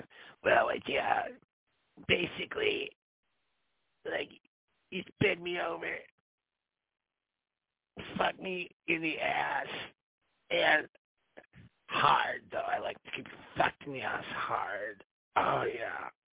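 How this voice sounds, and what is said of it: Imitating a woman's voice. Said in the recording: “I'm just going to do her voice.”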